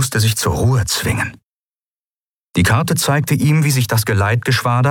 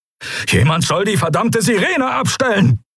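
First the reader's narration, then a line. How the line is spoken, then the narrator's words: Barked order. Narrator (German): bellte Telios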